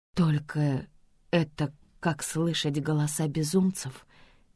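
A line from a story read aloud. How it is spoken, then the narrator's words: Quiet objection. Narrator (Russian): тихо возражаю я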